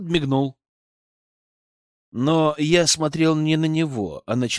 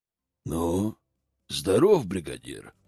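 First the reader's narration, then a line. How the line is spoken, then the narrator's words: Growled. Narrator (Russian): прорычал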